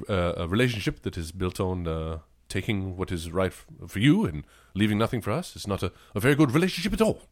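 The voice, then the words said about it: Failed Hugh Grant British accent, Dracula-like. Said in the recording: “do your Hugh Grant. Can you do a Hugh Grant? ... It's not Hugh Grant at all. I have one British accent I can do. ... You sound like a Dracula impersonator.”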